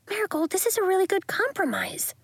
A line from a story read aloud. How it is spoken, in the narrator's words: she whispered